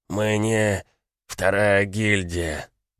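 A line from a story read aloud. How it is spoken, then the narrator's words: Barely audible wheeze. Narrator (Russian): прохрипел он еле слышно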